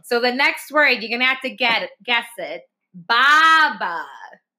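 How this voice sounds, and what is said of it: Exaggerated Boston accent, dropped R's. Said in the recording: “I'm definitely... over-exaggerating. ... The Boston accent. ... we don't pronounce the R”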